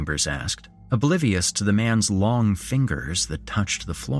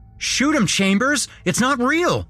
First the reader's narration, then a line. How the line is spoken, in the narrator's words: Harker yelled